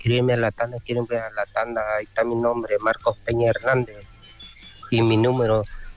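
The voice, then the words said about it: Radio announcer style voice. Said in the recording (Spanish): “con voz de locutor ya le hizo y todo acá este gallo”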